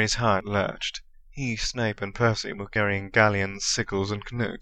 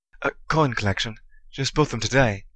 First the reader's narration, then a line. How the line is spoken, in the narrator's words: he hastily said